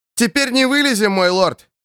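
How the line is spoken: Shout into ear. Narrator (Russian): крикнул ему на ухо Кит

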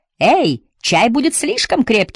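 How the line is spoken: Shouted from below. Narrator (Russian): закричала снизу Лотти

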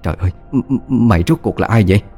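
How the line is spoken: Stammering question. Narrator (Vietnamese): Bà lắp bắp hỏi

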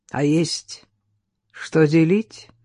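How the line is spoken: Indifferent question. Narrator (Russian): безучастным голосом спросил Велихов, не поворачиваясь

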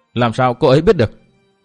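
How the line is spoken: Cold, surprised question. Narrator (Vietnamese): Càng ngạc nhiên hơn, Tư Mã Minh lạnh lùng hỏi

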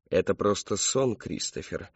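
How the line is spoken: Calm reply. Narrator (Russian): спокойно ответил славный человек

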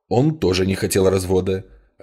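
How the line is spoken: Sharp reply. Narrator (Russian): резко ответил доктор

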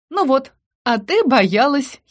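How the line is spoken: Giggling. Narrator (Russian): хихикала

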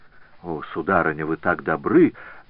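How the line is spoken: Exclaiming. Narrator (Russian): воскликнул Прево

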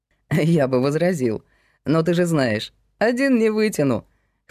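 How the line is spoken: Chuckled. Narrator (Russian): хохотнул Ковалев

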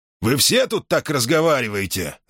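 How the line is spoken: Irritated question. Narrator (Russian): раздраженно спросил гонец

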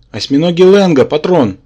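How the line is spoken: Yelling. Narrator (Russian): завопил Рабан

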